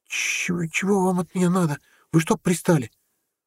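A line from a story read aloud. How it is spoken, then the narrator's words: Frightened hoarse, cracking squeak. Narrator (Russian): Парень испуганно хрипло спросил, сорвавшись на писк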